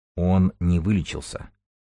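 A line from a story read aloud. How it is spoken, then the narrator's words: Quiet. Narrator (Russian): тихо проговорил Столбов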